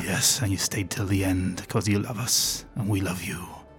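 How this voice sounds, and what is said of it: Creepy character voice. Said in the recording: “I'm talking with this creepy voice ... Sound a little bit like Geralt”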